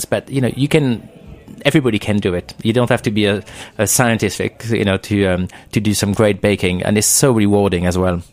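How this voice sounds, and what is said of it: French accent. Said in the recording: “your accent, you are French living in the UK”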